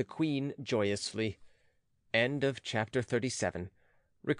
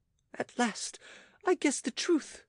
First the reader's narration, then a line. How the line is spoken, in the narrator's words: cried she